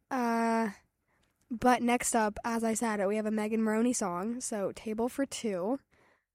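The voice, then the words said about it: Strained, fading hoarse voice. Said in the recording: “my voice is going out”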